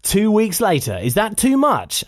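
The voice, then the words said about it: Generic radio presenter voice. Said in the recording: “that's not Jeremy Vine, is it? I can't do an impression. ... That's just generic radio, man.”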